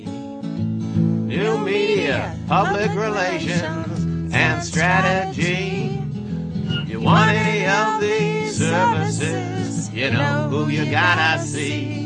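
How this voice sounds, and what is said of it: Northeast American accent. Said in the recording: “that Northeast accent”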